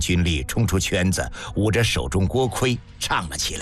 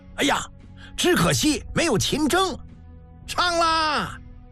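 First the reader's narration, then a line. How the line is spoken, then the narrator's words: Shouting. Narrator (Chinese): 有人一声大喊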